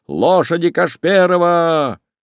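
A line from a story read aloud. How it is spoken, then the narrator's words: Shouting at top voice. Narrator (Russian): закричал во все горло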